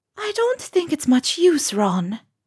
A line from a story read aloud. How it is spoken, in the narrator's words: Luna said, sadly